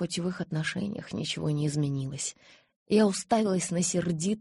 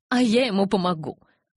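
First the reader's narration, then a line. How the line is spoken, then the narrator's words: Spiteful threat. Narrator (Russian): злобно пригрозила Розали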